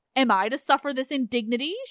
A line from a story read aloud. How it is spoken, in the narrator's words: she cried